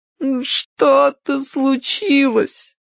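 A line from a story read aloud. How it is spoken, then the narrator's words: Tearful moan. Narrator (Russian): сквозь слезы простонала Чарли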